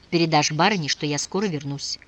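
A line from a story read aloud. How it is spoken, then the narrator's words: Whisper over shoulder. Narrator (Russian): шепнул через плечо казачку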